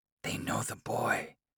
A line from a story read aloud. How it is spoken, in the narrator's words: the elders hiss